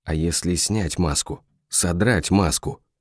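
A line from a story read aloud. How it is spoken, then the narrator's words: Dazed muttering. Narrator (Russian): бормотал, вдруг оглохнув Амака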